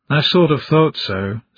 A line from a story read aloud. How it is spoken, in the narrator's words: Smar sighed